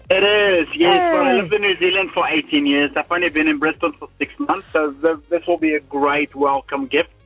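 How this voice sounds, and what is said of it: Slight South African accent. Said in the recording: “I sense a bit of a South African accent”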